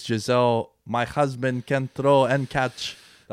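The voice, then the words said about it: Bad put-on Brazilian accent. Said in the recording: “That was a terrible Brazilian accent.”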